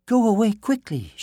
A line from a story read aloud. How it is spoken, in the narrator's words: cried